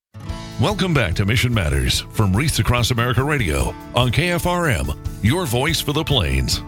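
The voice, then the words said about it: Polished radio announcer voice. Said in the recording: “you really have that radio voice. That's very well, impressive.”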